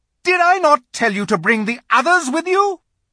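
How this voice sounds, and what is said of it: Terrible witch voice. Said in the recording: “said the witch in a terrible voice.”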